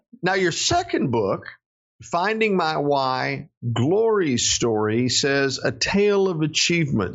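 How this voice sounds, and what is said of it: Southern American accent. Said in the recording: “English and Fractured Southern ... I can speak Southern, and I can occasionally pronounce my consonants and sound like a radio host.”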